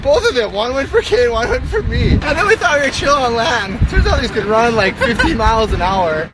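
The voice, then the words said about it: Strong surfer-style accent. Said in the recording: “terrific surfer vibe ... That's the worst accent I've ever heard in my life. ... That's worse than Scottish.”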